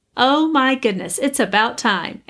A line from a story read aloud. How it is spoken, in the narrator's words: Amy laughed